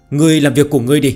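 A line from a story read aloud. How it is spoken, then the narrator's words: Irritated roar. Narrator (Vietnamese): Có lẽ vì nghe thấy âm thanh thần tiên đánh nhau, thiếu niên gầm lên với giọng điệu đầy bực bội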